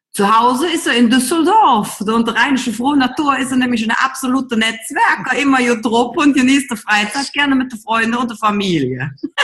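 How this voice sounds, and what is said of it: German regional dialect. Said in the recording (German): “machst du das so in einem Dialekt? Sag ich, jojo, das mache ich natürlich im Dialekt.”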